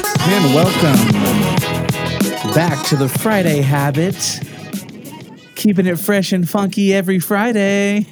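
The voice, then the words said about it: Polished radio announcer voice. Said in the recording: “you got the perfect radio voice.”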